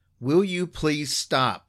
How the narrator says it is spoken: instinctively yelled

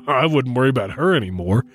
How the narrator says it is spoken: O'Flannery said with a chuckle

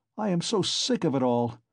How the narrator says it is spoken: Raskolnikov cried with exaggerated irritability

